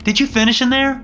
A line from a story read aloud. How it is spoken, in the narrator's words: shouted